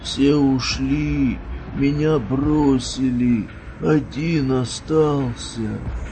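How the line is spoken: Wheezing. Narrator (Russian): прохрипел тот

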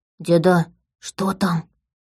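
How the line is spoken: Whispered question. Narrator (Russian): спросил шепотом

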